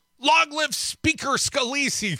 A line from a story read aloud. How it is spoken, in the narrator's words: he cried